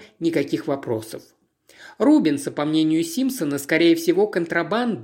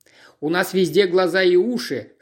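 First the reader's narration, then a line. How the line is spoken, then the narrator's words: Chuckle. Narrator (Russian): хохотнул Джеб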